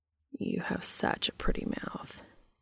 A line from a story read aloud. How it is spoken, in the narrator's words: Cass murmurs